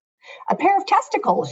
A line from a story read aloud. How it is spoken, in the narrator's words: said, and burst out laughing